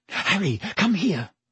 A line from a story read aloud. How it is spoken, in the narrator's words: she said urgently